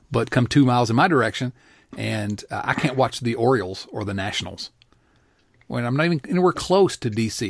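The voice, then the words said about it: Virginia mountain accent. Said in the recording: “I'm in the mountains, as you can tell from this glorious accent.”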